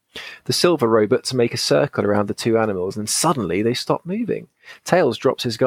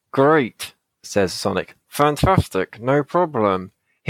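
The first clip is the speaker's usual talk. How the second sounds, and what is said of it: Strained voice through gritted teeth. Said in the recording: “His voice sounds strange as it squeezes past gritted teeth. ... That was acting.”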